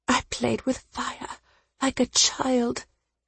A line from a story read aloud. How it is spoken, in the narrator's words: she whispered